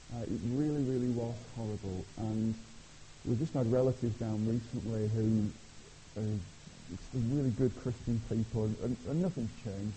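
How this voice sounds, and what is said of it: Lancashire English accent. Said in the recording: “where's this strange accent from? It's from Lancashire.”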